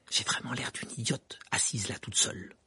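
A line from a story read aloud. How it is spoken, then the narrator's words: Murmured. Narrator (French): murmura-t-elle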